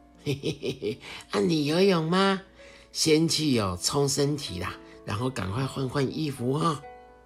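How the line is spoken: Smiling. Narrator (Chinese): 阿瑞笑笑的说

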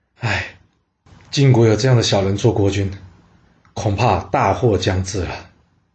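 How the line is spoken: Dejected private sigh. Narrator (Chinese): 晋国的大臣晋正 私底下灰心的叹了一口气

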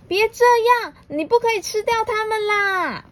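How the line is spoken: Loud shout. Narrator (Chinese): 鼹鼠大喊

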